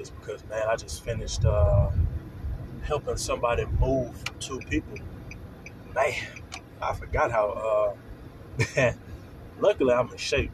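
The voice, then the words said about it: Tired, worn-out voice. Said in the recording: “I sound a little exhausted.”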